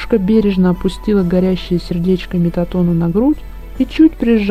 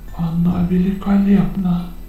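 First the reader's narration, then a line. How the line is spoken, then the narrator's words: Enchanted whisper. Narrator (Russian): очарованно прошептал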